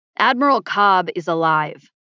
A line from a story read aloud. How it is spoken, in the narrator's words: I said loudly